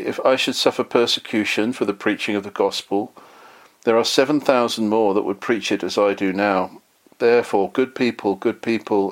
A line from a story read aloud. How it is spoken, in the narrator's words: he repeated these words several times in a sorrowful voice